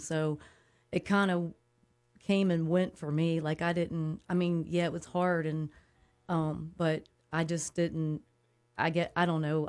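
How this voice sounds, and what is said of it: Emotional, upset voice. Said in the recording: “you're a little emotional ... I was starting to get upset”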